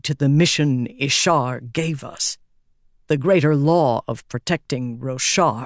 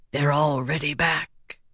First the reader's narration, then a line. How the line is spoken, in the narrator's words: whispered, speaking with a smooth, airy shin accent